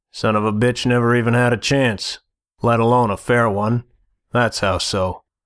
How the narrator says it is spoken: Chess snorted

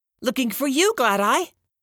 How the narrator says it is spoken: Rain shrieked

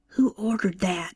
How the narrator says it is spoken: Joanne whispered

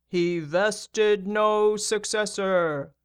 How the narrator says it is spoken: the big man boomed

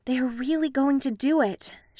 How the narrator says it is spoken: whispered

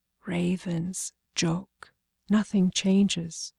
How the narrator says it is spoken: whispered

